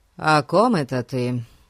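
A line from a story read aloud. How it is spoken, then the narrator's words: Indifferent question. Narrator (Russian): Безразличным тоном спросил Фати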